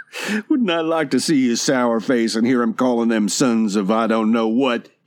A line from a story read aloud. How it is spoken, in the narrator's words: He barked out a suppressed laugh